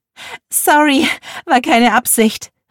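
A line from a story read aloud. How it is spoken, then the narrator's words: Laughing call. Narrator (German): rief lachend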